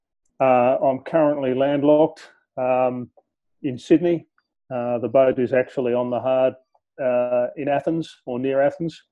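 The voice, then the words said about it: Australian accent. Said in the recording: “from my accent, you'll hear that I'm an Aussie”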